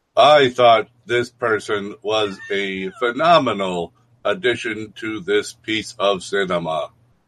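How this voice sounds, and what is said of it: Flat emotionless imitation of a character. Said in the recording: “No Emotion Joe ... That's a good imitation of him.”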